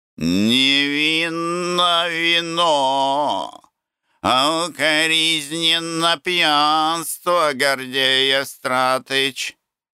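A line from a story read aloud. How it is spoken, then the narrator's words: Remark then laughter. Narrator (Russian): заметил Плинтусов и опять захохотал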